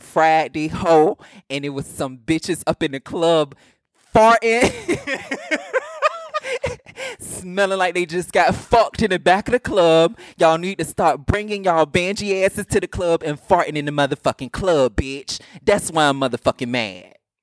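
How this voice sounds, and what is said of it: Strong Southern accent. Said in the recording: “That was very Southern. ... You gave all your Southern slang. ... Your accent came out very, very strong, baby.”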